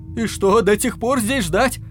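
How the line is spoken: Terrified shout. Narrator (Russian): закричал в ужасе Насимото

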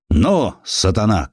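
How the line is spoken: Shouted. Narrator (Russian): крикнул он

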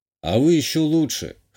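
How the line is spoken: Smirking snort. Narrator (Russian): хмыкнул я

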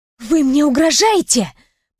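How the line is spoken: Hissing. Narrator (Russian): прошипела я

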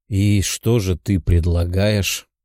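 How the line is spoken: Tired question. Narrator (Russian): Уставшим голосом спросил Тео

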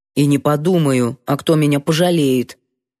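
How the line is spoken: Grumbling while chewing. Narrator (Russian): проворчала, прочавкала

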